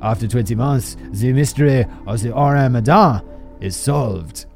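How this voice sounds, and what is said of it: Bad put-on French accent. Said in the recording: “That's a terrible French accent.”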